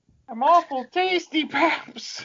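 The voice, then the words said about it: Comic voice for a cat. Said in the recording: “Him doing the voice of the cat is so funny. Oh my god, it's so good.”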